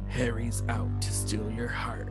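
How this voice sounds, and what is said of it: Dramatic movie trailer voice. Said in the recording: “do your movie voice. ... There has to be a movie voice if you're giving a movie tagline.”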